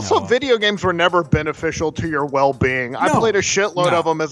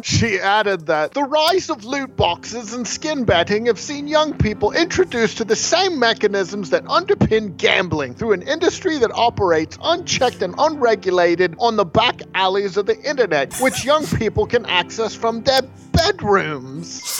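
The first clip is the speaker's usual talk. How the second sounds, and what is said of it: Put-on British accent. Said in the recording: “in your best British brogue”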